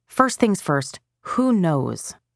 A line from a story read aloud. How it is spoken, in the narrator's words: Emily asked